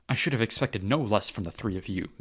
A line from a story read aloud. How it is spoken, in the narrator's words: Mace scoffed